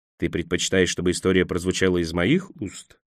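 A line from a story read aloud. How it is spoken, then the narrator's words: Quiet question. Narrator (Russian): негромко спросил Мэг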